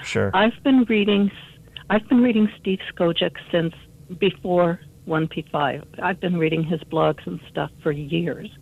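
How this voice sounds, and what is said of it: Hoarse voice from laryngitis. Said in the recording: “I have laryngitis, so I'm hoping my voice will last.”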